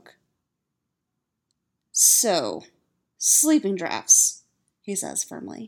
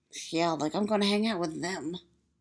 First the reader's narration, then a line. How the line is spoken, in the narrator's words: Styles mutters